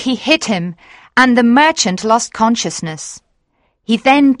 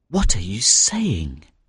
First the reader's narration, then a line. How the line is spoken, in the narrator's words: murmured the young fisherman